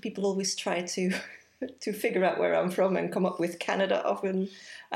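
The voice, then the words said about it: Belgian accent. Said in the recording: “I am originally from Belgium, which will explain the accent.”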